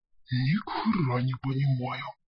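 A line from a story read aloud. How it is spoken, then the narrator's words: Whisper close to ear. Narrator (Russian): шепнул тролль, нагибаясь к моему уху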